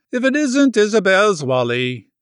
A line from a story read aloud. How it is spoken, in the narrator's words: she exclaimed